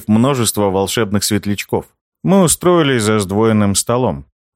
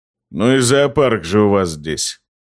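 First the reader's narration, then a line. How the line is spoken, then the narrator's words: Grumble. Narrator (Russian): проворчал Дека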